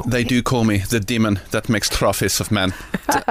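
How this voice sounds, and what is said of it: Put-on Spanish accent. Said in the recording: “Don't do a Spanish accent.”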